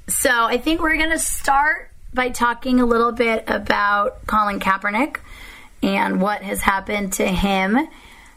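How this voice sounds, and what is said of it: Hoarse, strained voice. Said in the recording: “apologize for my voice. I lost my voice”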